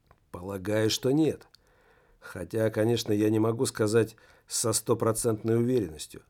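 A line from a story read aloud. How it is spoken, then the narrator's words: Plain. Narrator (Russian): ответила Адела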